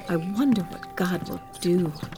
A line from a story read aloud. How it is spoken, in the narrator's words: they whispered to each other